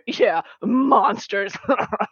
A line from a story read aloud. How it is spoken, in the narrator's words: one of them kind of laughs into his drink